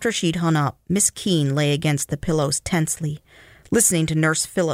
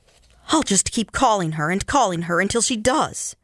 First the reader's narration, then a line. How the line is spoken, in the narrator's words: she said irritably to Nurse Phillips